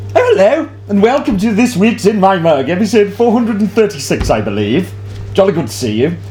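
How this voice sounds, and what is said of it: Odd put-on voice. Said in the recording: “weird voice”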